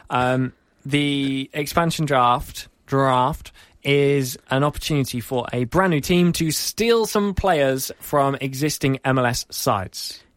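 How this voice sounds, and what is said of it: Southern English accent. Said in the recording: “I say draft, you say draft. ... That's just our differing accents ... You're from the south of England ... so I speak like the Queen”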